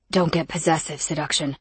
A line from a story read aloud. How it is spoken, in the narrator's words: Sirrett growled